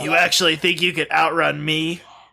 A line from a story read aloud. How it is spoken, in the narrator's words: Shadow chuckled